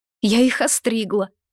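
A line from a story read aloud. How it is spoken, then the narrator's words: Said with silly giggle. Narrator (Russian): сказала Лита и глупо хихикнула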